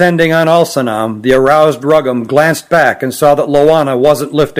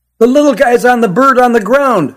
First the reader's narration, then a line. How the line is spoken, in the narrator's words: shouted the boy in the red baseball cap